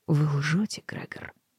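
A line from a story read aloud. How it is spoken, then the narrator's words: Quiet. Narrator (Russian): тихо проговорила мэр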